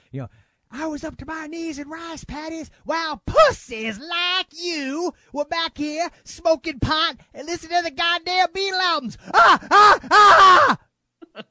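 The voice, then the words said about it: Bad impression of an actor's voice. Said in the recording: “I'm suddenly doing like this really bad impersonation of Arlie Ermey by way of Sam Kinison's teacher character from Back to School.”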